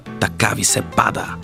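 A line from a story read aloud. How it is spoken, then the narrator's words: Growled. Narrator (Bulgarian): изръмжа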